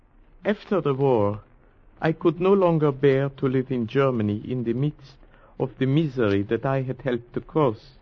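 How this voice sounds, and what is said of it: German accent. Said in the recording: “But your accent, you are German, aren't you?”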